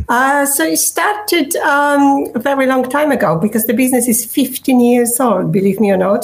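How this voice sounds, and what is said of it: Non-local foreign accent. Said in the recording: “that is not a Surrey accent”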